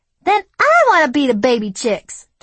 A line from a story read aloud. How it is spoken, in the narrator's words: Tassandra yelled